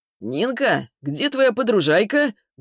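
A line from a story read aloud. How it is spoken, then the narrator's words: Loud question. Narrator (Russian): Громко, чуть ли не на весь ресторан, вопросил он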